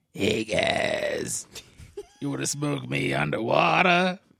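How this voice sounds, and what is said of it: Imitates another person's voice. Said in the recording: “your seagrass impression? ... that's an impression of your father.”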